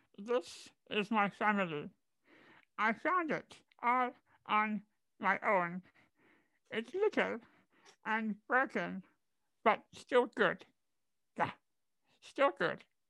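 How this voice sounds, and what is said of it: Cartoon alien character voice. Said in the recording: “do your Stitch impression”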